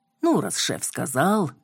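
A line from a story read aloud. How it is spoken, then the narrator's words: Grumbling. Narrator (Russian): проворчала я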